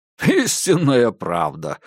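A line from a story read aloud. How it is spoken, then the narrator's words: Laughing. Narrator (Russian): рассмеялся Диккенс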